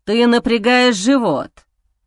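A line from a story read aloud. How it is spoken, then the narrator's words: Rough growl. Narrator (Russian): Мой голос срывается на грубое рычание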